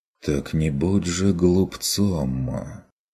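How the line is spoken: Muttered. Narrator (Russian): Пробормотал я

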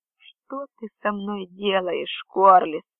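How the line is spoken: Hoarse. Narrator (Russian): прохрипел я

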